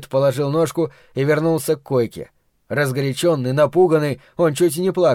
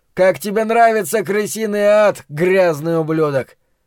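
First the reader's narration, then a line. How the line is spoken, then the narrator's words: Shouting. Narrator (Russian): закричал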